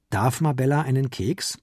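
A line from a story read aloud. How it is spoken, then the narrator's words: Plain. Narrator (German): fragte er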